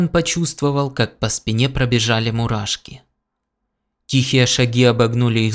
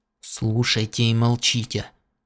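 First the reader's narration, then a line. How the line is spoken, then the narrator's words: Whispered command. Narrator (Russian): шепотом приказал тот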